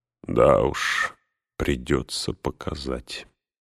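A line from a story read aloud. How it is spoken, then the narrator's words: Very quiet, strange smile. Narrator (Russian): очень тихо проговорил Фарамир со странной улыбкой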